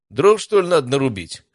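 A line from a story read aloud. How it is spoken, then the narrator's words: Amused grunt. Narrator (Russian): хмыкнул парень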